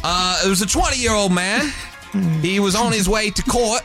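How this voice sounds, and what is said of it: Bad put-on British accent. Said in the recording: “Man, your accent. ... It's so bad.”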